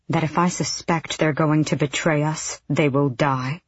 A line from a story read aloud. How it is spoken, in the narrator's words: Aelin said very quietly to them